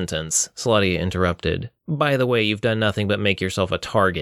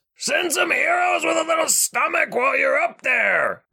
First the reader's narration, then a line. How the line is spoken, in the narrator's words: Richter yelled